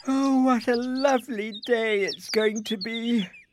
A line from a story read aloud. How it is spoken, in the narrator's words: yawned Isabel